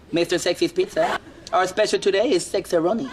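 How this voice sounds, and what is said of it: Funny put-on accent. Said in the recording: “I don't know where he came up with that accent. That's pretty funny, though.”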